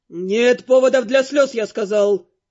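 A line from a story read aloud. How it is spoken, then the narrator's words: Growled. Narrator (Russian): рыкнул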